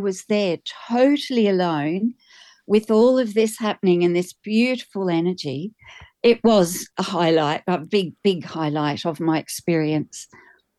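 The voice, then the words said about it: Australian accent. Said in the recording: “everybody can tell from your accent that you're Australian”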